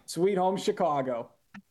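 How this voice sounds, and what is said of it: Exaggerated Chicago accent. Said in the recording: “That accent is wonderful... send us out with a Chicago one more time”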